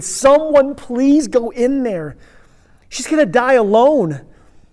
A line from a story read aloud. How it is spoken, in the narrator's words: pleaded